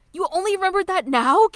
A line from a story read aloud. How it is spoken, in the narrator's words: Kyo shouts